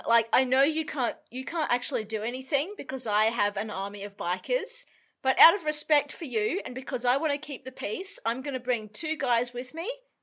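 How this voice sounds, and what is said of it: Put-on tough biker accent. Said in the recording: “He kind of sounds like Mick Jagger. That's the accent you're doing. Your biker accent kind of went a little bit Mick Jagger. Yeah. Like, it wasn't super Mick Jagger. It was more like John Mulaney Mick Jagger.”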